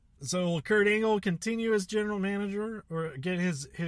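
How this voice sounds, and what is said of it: Usual voice. Nothing is said of it.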